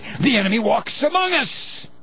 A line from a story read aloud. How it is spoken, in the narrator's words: cried the shepherd boy